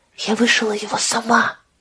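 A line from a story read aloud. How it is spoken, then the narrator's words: Whispering. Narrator (Russian): прошептала Лидия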